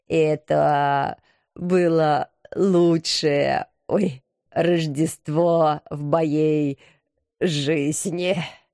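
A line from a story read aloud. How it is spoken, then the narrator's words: Sincere wheeze. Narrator (Russian): Искренне прохрипел он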